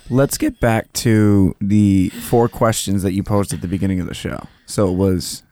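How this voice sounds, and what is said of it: Scratchy, strained voice. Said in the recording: “Get water for our tired throats from screaming. ... you can definitely hear that in my voice. ... That hot, sexy, scratchy voice.”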